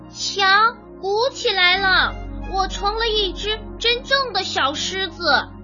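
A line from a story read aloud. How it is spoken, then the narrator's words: Loud. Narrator (Chinese): 毛尔东大声地说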